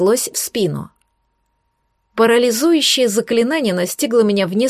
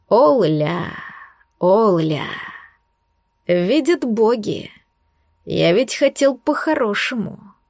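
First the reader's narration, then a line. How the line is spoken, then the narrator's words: Angry, through gritted teeth. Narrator (Russian): Зло процедил Айрвун Руил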